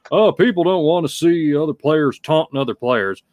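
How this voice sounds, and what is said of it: Put-on Texas accent. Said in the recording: “I gave John Mara a Texas accent”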